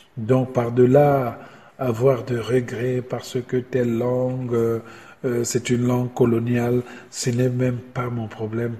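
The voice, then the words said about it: Congolese French accent. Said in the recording (French): “J'écris avec mon accent congolais”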